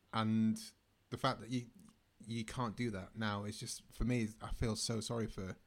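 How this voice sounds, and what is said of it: Manchester English accent. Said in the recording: “that's not a London accent, is it? ... No, I'm from Manchester.”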